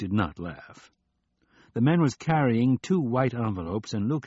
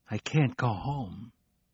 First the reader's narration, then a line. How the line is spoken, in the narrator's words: he whispered